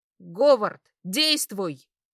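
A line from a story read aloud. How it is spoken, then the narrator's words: Barked in unison. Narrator (Russian): рявкнула я одновременно с церковником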